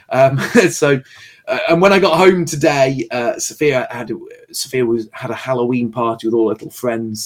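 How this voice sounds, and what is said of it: Worn, fading voice. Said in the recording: “You sound like you're losing your voice as well... I am losing my voice as well a little bit... I'm losing my voice... further worn my voice down”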